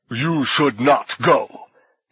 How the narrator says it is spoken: His growl seemed to push its way deep into her ear

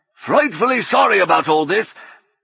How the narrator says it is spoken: he bellowed

